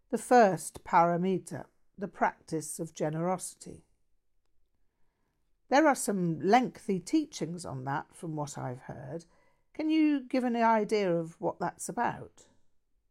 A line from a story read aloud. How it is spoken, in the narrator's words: Annie Chöyang sighed